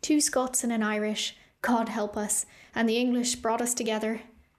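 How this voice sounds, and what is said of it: Lilting Irish accent. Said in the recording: “in her lilting Irish accent.”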